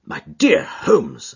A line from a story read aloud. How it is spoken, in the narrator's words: I exclaimed